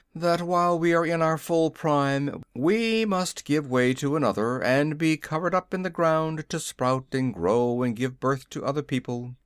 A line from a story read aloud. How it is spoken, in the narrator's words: continued the prince with a sigh